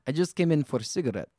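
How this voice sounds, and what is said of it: Put-on Russian accent. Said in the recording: “I did a Russian accent.”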